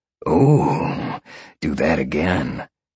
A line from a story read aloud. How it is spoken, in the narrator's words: Sean said and slowed down a moment, purring loudly